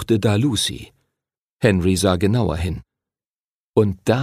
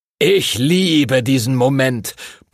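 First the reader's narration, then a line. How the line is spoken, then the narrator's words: Booming, blustering. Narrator (German): polterte Master Duncan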